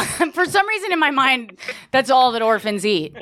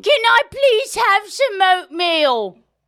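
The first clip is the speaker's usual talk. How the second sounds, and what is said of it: Put-on accent, child orphan character. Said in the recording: “I'm concentrating so hard on the accent.”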